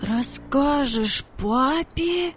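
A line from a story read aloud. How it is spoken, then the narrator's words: Incredulous exclamation. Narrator (Russian): воскликнул Владик, не поверив своим ушам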